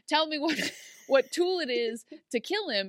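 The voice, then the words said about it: Put-on accent, unclear which. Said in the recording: “I don't know what the accent this is that I'm doing.”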